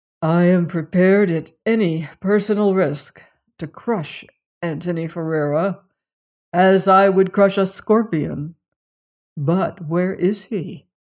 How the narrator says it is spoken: Robert Cairn groaned

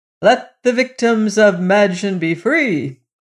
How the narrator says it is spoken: replied the young man, who, to say the truth, was a little anxious himself, he cried

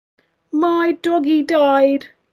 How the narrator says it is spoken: a child cried

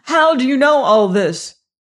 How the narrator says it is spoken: He cried

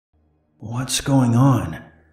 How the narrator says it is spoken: I said in a hoarse voice

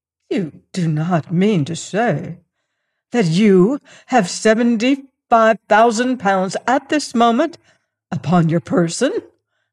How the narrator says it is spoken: I exclaimed

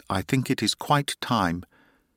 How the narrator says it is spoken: she said in a clear voice

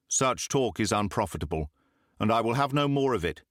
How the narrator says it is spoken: said Simon sternly

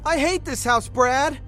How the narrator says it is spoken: I shouted

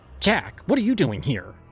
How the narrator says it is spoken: She snapped, her voice carrying the sharpness of someone who no longer cared to hide their disdain

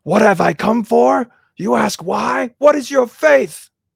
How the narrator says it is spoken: shouted Father Ferapont crazily

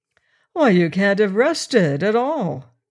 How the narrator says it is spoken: cried Hanbury

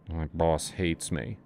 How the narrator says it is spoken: Asa mumbled

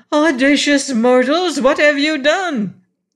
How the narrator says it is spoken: one of the roses cried aloud

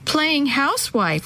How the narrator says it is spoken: one of them giggled

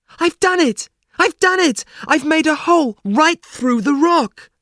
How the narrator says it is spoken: he cried out

